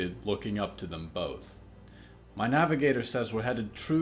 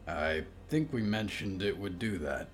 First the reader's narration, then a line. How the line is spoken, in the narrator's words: Hector said